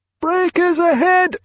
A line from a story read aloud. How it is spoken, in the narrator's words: roared the forecastle lookout